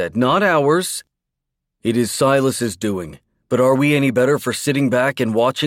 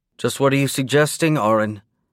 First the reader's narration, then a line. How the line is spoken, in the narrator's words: Anna asked, her voice toneless